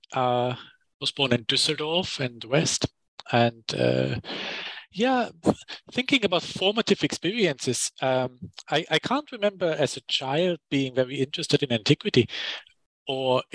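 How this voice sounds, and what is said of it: German accent. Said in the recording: “I grew up in Germany, as you can hear from the accent.”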